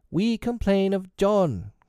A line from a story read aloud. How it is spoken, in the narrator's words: cried the twins